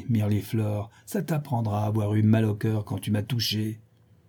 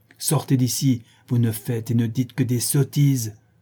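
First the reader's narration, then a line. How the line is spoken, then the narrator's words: Enraged shout. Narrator (French): s'écrie-t-il avec rage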